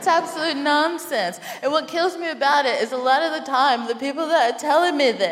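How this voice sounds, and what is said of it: Usual voice. Nothing is said of it.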